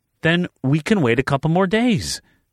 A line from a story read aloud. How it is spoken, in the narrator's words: she begged